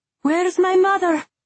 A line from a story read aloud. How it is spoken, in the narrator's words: Isolde shouted